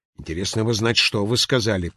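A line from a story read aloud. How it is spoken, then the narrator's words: Muttering. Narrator (Russian): пробормотал шкипер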